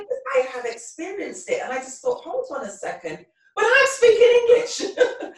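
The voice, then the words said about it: Thick English accent. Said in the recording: “your accent's so thick ... I'm English”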